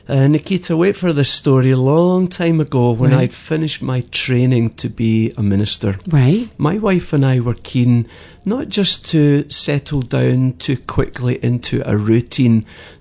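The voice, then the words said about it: Scottish accent. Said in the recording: “your accent, you are from? ... I'm born and bred in Glasgow, in Scotland.”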